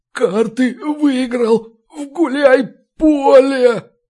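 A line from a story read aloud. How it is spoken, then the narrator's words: Terrified moan. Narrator (Russian): почти простонал тот в ужасе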